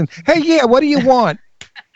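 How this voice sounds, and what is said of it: Put-on Brooklyn accent. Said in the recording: “a Brooklyn accent.”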